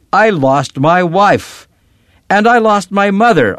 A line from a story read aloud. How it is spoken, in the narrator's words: shouted